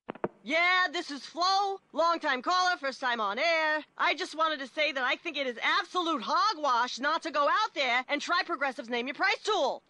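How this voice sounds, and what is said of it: Sports talk radio caller voice. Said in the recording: “this is my impression of someone calling into Sports Talk Radio”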